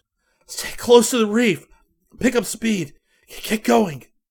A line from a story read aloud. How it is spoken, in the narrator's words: He gasped